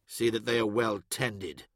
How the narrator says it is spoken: Arcades said in a threatening undertone

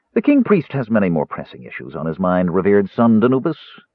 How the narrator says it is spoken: he said coldly

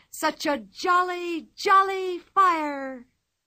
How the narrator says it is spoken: she cried loudly

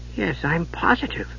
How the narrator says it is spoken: Tass muttered

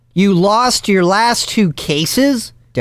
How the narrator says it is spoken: Devin shrieked

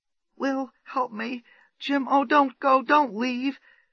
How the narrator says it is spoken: she gasped brokenly, new tears bursting from her eyes

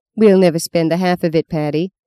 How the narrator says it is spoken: said Fee

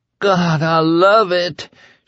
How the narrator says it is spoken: she moaned

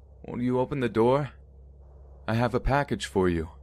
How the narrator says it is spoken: the man called out

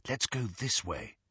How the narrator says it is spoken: Hermione murmured

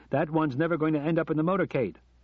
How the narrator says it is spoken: shouted Johnny

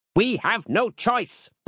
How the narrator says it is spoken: barked Harland sternly

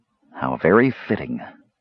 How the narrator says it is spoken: Raistlin murmured

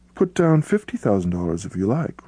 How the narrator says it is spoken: replied the millionaire, so calmly that the young man no longer knew whether he spoke seriously or in jest

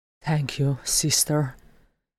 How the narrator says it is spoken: he murmured

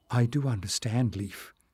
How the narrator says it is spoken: Marilyn said in a low voice

